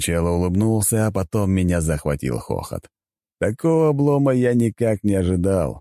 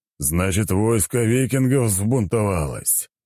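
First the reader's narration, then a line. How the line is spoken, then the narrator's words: Sighing. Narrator (Russian): Вздохнул он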